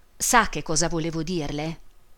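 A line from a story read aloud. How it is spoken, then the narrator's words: Low voice. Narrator (Italian): Disse infine a voce bassa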